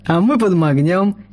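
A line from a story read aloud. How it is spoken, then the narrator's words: Troll's giggle. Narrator (Russian): хихикнул тролль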